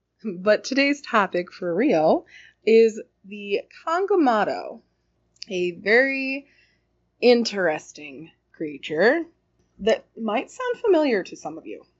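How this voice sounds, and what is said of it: Unusually deep, ill-sounding voice. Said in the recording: “my incredibly deep voice right now. ... I have bronchitis. I'm getting over it, but I still don't quite sound like me”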